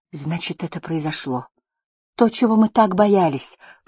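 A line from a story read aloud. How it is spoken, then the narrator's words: Whisper. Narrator (Russian): прошептала она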